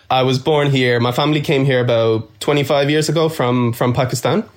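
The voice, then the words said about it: Dublin Irish accent. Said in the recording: “I love that Dublin accent. You've got that amazing accent”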